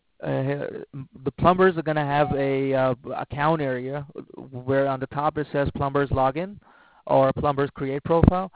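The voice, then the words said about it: Non-American foreign-accented English. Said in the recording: “With that accent. If you get rid of the accent, then you can fake the American names”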